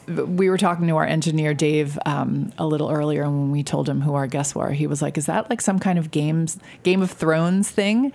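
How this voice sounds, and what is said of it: Hoarse, failing voice. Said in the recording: “As I lose my voice”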